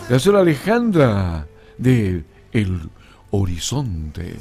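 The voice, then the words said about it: Radio announcer voice. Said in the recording (Spanish): “me salió voz de locutor.”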